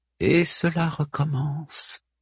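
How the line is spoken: Murmur through fixed grimace. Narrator (French): murmure, le visage figé sur son rictus

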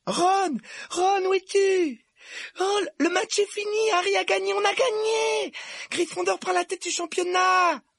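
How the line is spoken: Excited yelling. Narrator (French): hurla Hermione

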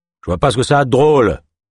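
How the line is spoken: Growling. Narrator (French): gronda le trappeur

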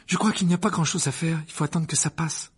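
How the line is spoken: Worried. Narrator (French): dit Hermione d'un ton inquiet

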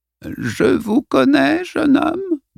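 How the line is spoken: Quavering high-pitched voice. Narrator (French): demanda-t-elle d'une voix chevrotante et au perché

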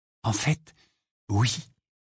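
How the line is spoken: Quiet admission. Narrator (French): admit Hermione à voix basse

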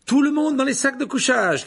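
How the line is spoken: Shouted. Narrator (French): cria Percy

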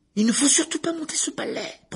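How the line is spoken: Shrill protest. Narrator (French): protesta Hermione d'une voix perçante

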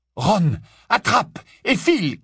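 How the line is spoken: Shouted. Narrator (French): cria-t-il

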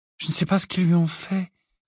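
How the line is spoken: Sad reply. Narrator (French): répondit tristement Luna

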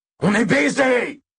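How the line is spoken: Yelled. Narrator (French): hurla Tchak

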